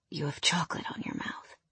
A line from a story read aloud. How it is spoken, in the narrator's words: whispered